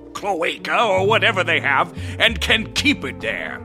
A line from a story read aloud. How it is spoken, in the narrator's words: he shouted to, no one in particular